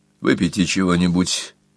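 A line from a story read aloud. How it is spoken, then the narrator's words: Muffled dull voice. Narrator (Russian): предложил глухим голосом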